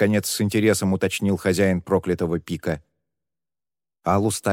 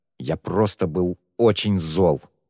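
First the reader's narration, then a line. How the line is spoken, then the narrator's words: Forced through gritted teeth. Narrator (Russian): выдавил сквозь зубы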